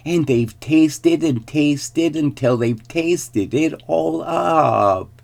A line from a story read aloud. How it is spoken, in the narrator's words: squealed the baby bear